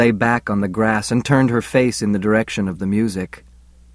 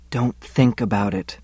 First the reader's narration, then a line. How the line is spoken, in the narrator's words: she whispered